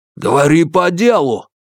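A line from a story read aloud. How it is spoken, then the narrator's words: Barked. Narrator (Russian): рявкнул Юань Сяофэн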